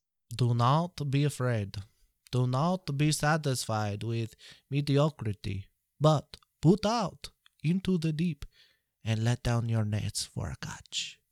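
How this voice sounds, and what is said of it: Attempted Polish accent, Jonathan Roumie impression. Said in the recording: “trying to do a Jonathan Rooney impression ... kind of sounds trying like him. You were trying to have an accent there ... I can't do Polish accents very well”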